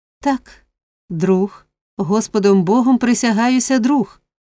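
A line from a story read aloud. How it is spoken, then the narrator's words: Girl's fervent exclamation. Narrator (Ukrainian): палко вигукнула дівчина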